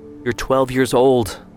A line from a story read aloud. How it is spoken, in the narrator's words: Amada said wearily